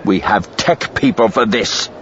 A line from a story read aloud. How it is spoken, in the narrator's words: he growled